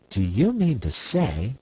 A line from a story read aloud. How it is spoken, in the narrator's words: exclaimed Miss Theodosia indignantly